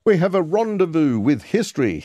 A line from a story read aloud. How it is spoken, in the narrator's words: he said